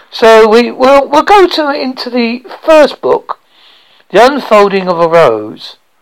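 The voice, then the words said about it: Noticeable accent, speaking slowly. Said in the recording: “I'm sort t- trying to speak a little bit slower because sometimes people cannot understand my accent ... I'm talking a little bit slower than I normally would”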